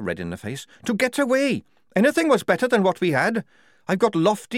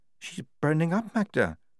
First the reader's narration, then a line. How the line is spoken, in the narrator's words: said Lofty quietly